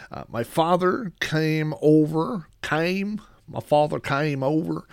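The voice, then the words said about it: Oklahoma accent. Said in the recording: “that's a Oklahoma accent coming out in me”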